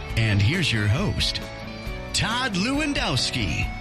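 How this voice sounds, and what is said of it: Loud announcer voice. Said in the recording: “Mr. Loud Announcer Voice”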